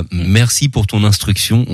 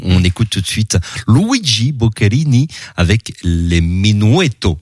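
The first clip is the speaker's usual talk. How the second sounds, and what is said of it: Exaggerated foreign accent. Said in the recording (French): “Ma quel accent!”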